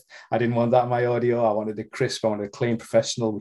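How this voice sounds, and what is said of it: Unfamiliar regional accent. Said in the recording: “my voice is what it is. I have an accent that not many people will be familiar with”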